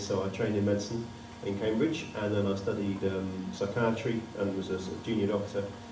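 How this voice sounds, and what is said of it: Southern English accent. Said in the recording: “As you can tell from my voice, I'm not from around here. I'm a southerner, born in London”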